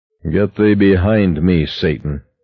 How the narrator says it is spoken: he said thickly

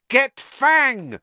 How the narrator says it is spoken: Harry yelled

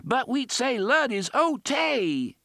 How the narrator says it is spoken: scream

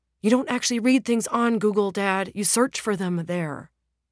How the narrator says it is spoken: the son exclaims

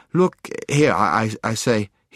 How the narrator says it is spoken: he stammered

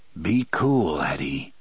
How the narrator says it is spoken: Roland whispered

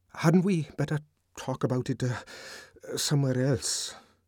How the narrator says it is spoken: he stammered, looking horribly uncomfortable

